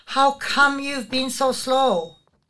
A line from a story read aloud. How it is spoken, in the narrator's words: cried